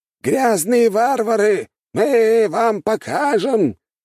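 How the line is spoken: Old man shouting. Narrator (Russian): что-то кричал старик

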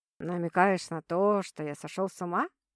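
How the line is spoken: Curious question. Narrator (Russian): полюбопытствовал Стас

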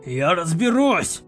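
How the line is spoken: Giant's growl. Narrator (Russian): Зарычал великан

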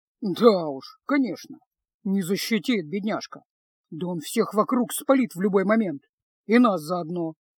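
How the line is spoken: Quiet grumble. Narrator (Russian): тихо пробурчал Кайл

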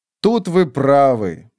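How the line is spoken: Silent mocking mimicry. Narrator (Russian): молча ответил Танакалиан, насмешливо воспроизводя слова Кругавы

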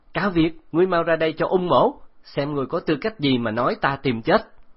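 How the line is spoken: Loud shout. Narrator (Vietnamese): hét lớn

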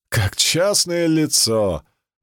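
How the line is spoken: Burst out laughing. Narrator (Russian): Цицерон расхохотался

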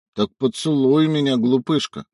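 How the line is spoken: Sleepy mumble. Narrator (Russian): сонно пробормотал

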